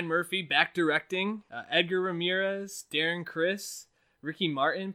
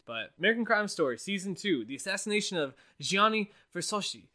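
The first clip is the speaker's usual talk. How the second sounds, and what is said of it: Bad attempted Italian accent, sounding Asian. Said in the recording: “I went Asian on that accent. That was just, I was trying to do Italian, but that was just horrible.”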